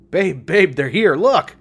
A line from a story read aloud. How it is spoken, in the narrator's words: He shouted with glee